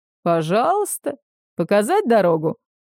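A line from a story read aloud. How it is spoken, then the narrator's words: Mocking question. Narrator (Russian): насмешливо спросил капитан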